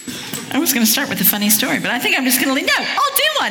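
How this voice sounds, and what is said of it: Southern Californian accent with British tinge. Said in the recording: “The accent, as you're hearing, is Southern California with living in England for 16 years. So a bit of Welsh in there.”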